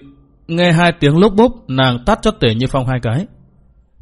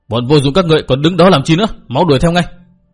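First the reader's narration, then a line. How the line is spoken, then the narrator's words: Barked order. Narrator (Vietnamese): quát bảo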